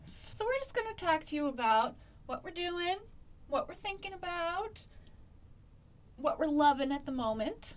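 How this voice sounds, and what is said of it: Upper Midwest up north accent. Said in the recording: “an up north accent”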